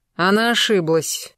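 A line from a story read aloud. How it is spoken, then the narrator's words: Through gritted teeth. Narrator (Russian): сквозь зубы процедил граф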